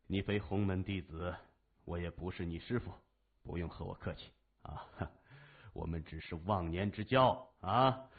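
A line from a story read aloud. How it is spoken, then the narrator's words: Laughing. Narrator (Chinese): 老大爷笑着说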